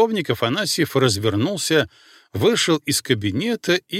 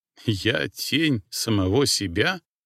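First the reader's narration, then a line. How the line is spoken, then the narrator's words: Muttered with a smirk. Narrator (Russian): пробормотал он и усмехнулся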